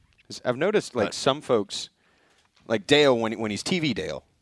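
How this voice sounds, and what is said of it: Usual voice. Nothing is said of it.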